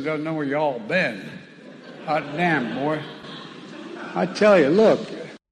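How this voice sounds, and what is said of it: Fake Southern accent. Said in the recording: “a fake Southern accent”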